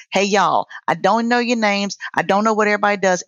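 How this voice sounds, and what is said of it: Country accent. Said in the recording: “In my country ass accent”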